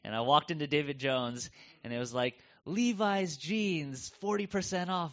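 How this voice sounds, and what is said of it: American accent. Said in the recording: “you can tell from my accent, I'm not from around here, and so coming from the U.S.”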